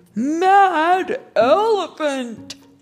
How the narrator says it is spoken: shouted the crowd

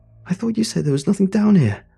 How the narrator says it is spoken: Kaz cried

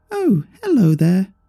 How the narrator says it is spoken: came a high-pitched, squeaky voice from the puppet resembling Eve

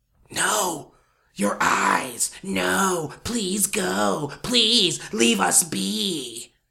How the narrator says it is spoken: it whispered

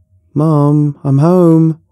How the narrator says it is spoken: I shouted

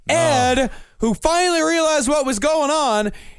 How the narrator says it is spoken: he yelled

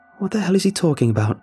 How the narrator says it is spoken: exclaimed

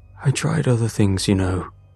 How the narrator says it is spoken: he muttered, voice hoarse

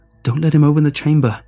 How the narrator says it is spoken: cried out

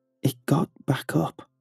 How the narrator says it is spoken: whispered in shock

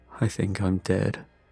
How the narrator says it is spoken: muttered, almost as if he was talking to himself

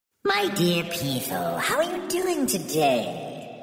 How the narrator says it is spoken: cooed

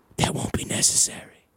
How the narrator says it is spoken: I heard a whisper

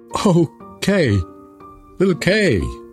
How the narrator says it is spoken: cried Gerda

